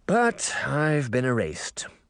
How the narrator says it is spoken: Uncle Jake sighed

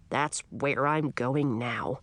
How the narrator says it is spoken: he grumbled

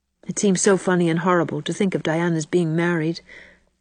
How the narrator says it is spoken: sighed Anne

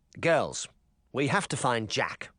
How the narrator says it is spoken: Charming said coldly

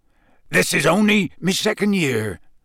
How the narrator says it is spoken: said Hagrid

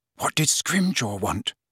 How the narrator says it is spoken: Hermione whispered

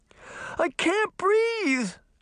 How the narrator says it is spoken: Daphne cried suddenly

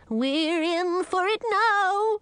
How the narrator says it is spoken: wailed Shelton

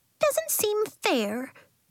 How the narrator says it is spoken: Ghost squeaked

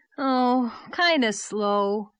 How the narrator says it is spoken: said Davy with a sigh

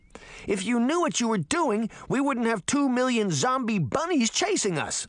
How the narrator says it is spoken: she shouted

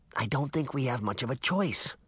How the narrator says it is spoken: Sabrina whispered back

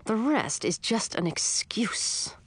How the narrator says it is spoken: Mother said through clenched teeth

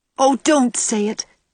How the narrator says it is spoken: cried Anne pleadingly

